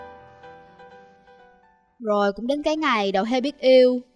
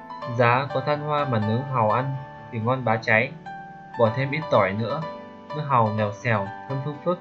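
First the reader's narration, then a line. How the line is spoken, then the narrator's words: Muttering. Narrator (Vietnamese): Đầu heo lẩm bẩm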